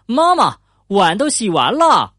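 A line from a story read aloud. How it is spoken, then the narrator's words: Calling out. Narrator (Chinese): 富兰克林他对妈妈喊道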